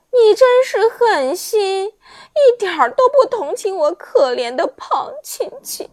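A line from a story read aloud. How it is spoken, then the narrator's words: Crying. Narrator (Chinese): 大女伯爵听了，立时哭了，说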